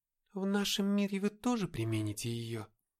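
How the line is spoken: Quiet question. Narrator (Russian): тихо спросила Даша

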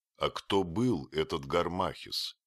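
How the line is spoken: Plain question. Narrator (Russian): спросил я

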